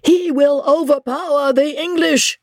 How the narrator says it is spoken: shrieked Isidore to his master

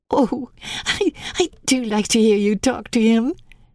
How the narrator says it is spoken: Mary said, laughing delightedly

